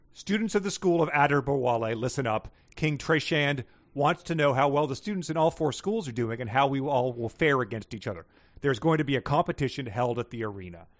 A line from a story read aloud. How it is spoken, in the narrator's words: Adder Bawali yelled